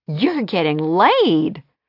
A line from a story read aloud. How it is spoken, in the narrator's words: her sister exclaimed triumphantly